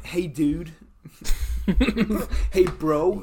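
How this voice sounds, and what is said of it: Put-on American accent. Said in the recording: “I don't know how to do an American accent.”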